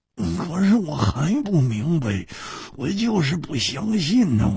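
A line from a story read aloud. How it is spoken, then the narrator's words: Muttering. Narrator (Chinese): 胡铁花喃喃地说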